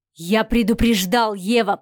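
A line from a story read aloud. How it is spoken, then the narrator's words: Hissed. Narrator (Russian): прошипел Адмиралов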